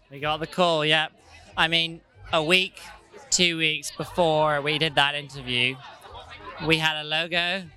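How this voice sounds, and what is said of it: Speaks with a distinct accent. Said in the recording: “I loved your accent”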